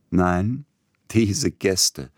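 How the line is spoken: Laughing. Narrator (German): sie lachend

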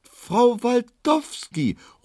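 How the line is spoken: Called out. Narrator (German): ruft Frau Postschaffner Luko

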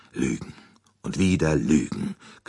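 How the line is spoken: Bitter growl. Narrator (German): knurrte er erbittert

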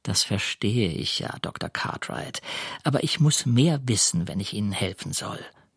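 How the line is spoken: Quiet voice. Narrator (German): sagt mit leiser Stimme

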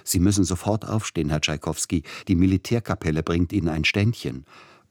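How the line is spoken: Breathless call. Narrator (German): Der Empfangschef des Hotels rief atemlos

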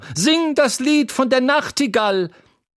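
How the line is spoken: Woman shouting. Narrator (German): schrie eine Frau im Publikum

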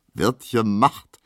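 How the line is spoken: Laughing soldier. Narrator (German): sagt lachend der Soldat

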